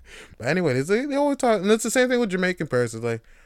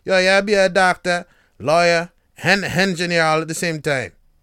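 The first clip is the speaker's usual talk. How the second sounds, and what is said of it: Weak put-on Jamaican patois accent. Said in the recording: “Even that's bad. My patois is terrible. I'm not good at these accents.”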